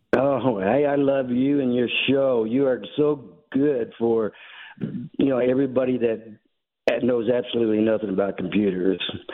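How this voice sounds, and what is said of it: Speaks with a noticeable accent. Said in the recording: “Love your accent, sir.”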